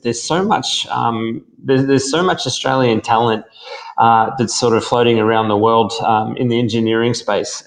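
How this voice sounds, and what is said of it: Australian accent. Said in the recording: “I'm pretty sure I'm not going to get away with the idea that my accent comes from anywhere else ... I haven't said yous yet, but I'm pretty sure you've worked out where I come from”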